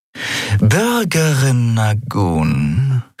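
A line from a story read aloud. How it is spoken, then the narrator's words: Purring. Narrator (German): schnurrte sie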